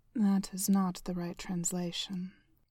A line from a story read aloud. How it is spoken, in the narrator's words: Heimdall said calmly